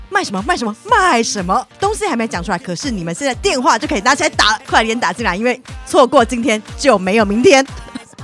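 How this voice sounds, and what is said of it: Put-on accent, TV shopping host style. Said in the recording (Chinese): “日坛公园的第一档口音广播购物节目”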